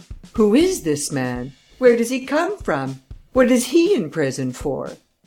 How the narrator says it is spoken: exclaimed the judge

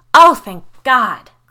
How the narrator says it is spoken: Claire exclaimed

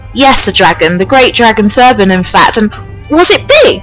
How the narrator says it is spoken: Zardy asked eagerly

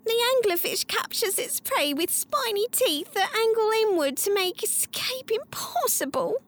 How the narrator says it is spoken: she sobbed

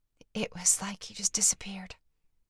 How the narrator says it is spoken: the woman whispered

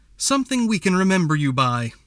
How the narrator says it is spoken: she said loudly

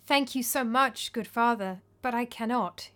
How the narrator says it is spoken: he said sadly

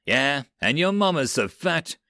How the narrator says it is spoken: Doth sneered

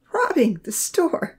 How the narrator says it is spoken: Odin laughed

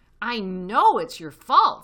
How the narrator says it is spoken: said Badger furiously

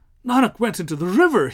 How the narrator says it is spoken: gasped

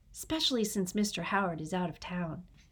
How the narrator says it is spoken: Frankie murmured

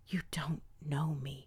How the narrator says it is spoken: I whispered weakly

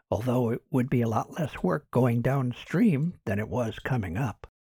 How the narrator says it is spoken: Martin whispered back

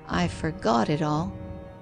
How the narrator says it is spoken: sighed

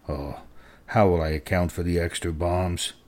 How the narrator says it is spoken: Company quartermaster Ashby paced up and down, murmuring

